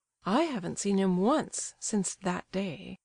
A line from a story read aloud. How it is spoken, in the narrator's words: the prince murmured